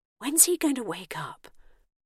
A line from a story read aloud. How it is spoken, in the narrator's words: Bernice whispered